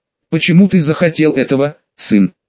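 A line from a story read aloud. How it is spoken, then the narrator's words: Even, calm voice. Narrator (Russian): сказал он ровным спокойным голосом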